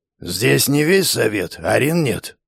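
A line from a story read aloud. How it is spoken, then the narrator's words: Grumble. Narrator (Russian): пробурчал Баркс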